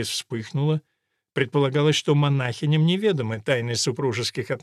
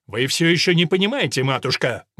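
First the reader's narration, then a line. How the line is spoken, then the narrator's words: Rude interruption. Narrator (Russian): грубо прервал ее Ральф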